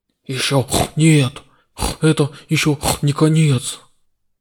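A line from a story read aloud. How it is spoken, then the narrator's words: Hoarse mutter. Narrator (Russian): Хрипло пробормотав, Бунагиос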